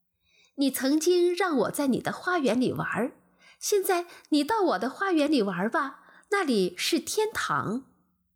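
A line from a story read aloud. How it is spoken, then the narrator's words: Child laughing. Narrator (Chinese): 孩子笑了起来，说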